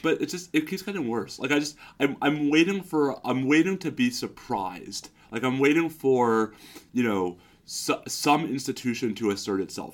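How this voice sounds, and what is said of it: Hoarse, sick-sounding tired voice. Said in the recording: “my voice is messed up because I'm still getting over strep and I'm sick, but my voice is also messed up because I'm tired.”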